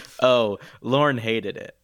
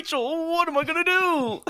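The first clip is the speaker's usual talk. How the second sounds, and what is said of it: Impression of Joey from Friends. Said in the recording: “That was Joey.”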